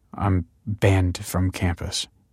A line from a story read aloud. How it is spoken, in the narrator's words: he mumbled